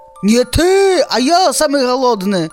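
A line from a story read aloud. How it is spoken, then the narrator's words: Wolf's roar. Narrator (Belarusian): Зароў першы ваўк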